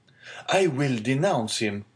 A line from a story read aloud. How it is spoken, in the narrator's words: exclaimed the young man hastily